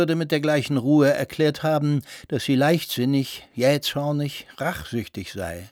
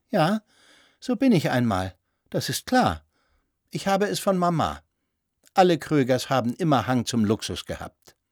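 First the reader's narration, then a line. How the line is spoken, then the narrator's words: Calm, cheeky pout. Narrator (German): Ganz ruhig zurückgelehnt, sagte sie mit keck hervorgeschobener Oberlippe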